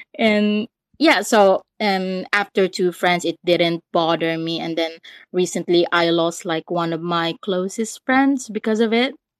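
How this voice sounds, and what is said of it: London-tinged accent, not Scandinavian. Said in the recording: “not that's not Scandinavian though ... there's a Londonish feel to your accent mixed in with some ... that's not Scandinavian”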